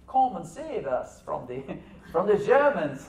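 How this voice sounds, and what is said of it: Weak put-on French accent. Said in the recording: “That's not my best French accent.”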